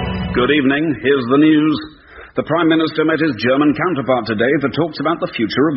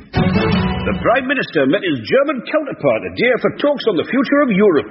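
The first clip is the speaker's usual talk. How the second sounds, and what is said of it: Angry news reading. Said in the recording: “you could get it read in a particular emotion, like anger”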